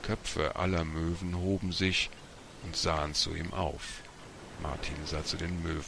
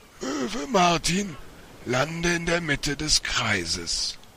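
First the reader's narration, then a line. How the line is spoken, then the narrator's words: Calling out. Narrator (German): rief der Vorsitzende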